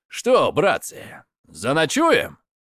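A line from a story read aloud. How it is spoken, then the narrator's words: Cheerful question. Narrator (Russian): спросил весело Радигаст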